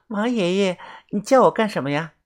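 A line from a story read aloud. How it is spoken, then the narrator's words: Sweet voice. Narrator (Chinese): 泡菜妹 声音甜甜的说道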